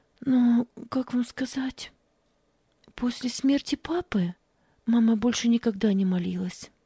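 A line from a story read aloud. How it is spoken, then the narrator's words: Trembling voice. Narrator (Russian): дрожащим голосом ответила она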